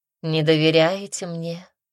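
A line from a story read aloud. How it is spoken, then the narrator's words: Sighing empress. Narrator (Russian): вздохнула императрица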